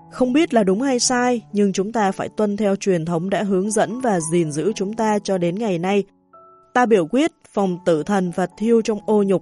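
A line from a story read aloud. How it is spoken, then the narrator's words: Sighing. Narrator (Vietnamese): ông Hoàng Mika Verlef thở dài nói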